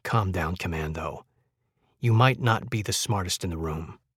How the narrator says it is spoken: she whispered

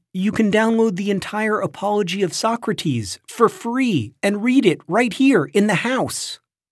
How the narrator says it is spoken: would say excitedly

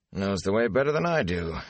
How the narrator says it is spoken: he chuckled

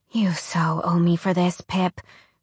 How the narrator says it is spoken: Alex muttered, placing the medicine between her teeth

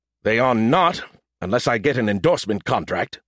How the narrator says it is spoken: he grumbled

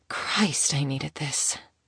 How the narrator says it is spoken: she groaned

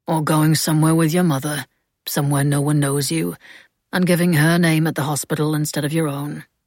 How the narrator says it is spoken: Francis said calmly

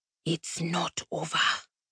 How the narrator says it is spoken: Apari whispered

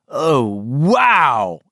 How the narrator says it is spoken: Andrew Keene cried

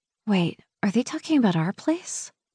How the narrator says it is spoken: I whisper to Patrick

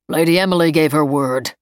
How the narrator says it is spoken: Sergeant Miles rumbled

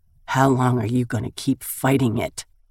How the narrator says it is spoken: His voice is husky, laced with desire

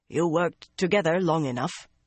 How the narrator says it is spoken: Baonin said in her heavy Taraboner accent

